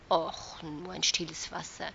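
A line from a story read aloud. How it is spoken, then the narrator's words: Ashamed murmur. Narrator (German): murmelte ich beschämt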